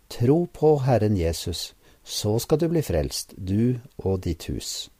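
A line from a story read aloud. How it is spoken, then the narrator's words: Calm answer. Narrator (Norwegian): misjonæren svarte rolig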